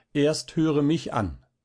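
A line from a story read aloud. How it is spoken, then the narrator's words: Calling out. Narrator (German): rief Balthasar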